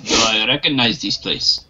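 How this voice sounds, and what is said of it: Put-on Russian accent. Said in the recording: “What's with the Russian accent?”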